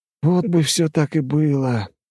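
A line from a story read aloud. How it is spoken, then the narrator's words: Sighing. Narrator (Russian): вздохнул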